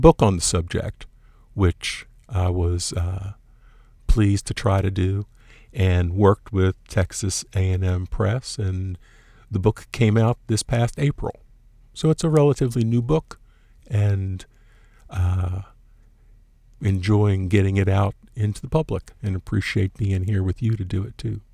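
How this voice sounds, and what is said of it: Remarkable radio-style voice. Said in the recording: “Doesn't he have a remarkable radio voice? ... you would fit nice or any NPR station ... he has a perfect voice”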